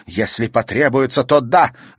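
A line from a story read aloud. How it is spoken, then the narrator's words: Loud. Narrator (Russian): громко сказала Виолетта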